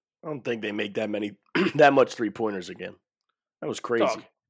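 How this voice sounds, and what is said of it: Hoarse, strained voice. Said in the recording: “Get a lozenge. What is going on? ... I just lost my voice. ... I yelled for a straight 10 minutes.”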